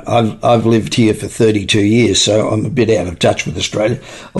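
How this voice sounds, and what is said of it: Australian accent. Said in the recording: “my accent still sounds like I'm Australian”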